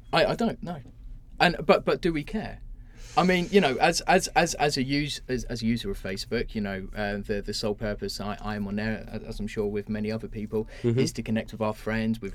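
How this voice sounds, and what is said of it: Hammed-up Essex geezer accent. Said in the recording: “ham up your sort of Essex accent a little bit to make it even more convincing ... You've got to be a bit more geasery, innit? ... Geezer-like”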